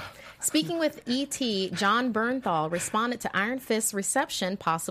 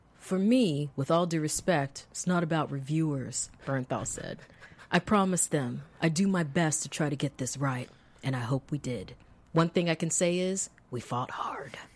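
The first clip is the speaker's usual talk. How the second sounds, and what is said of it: Intense, combative imitated voice. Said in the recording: “That's a really good impression. ... sounds like he's at war”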